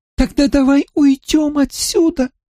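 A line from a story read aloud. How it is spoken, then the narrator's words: Tiny thin voice. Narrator (Russian): сказала Ара совсем тоненьким голоском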